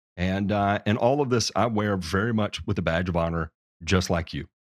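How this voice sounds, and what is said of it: Southern accent. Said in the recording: “I talk funny. I've got a Southern accent just like you do”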